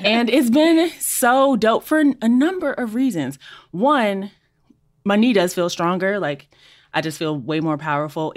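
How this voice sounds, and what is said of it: Breathless, out-of-breath speech. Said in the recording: “I'm out of breath”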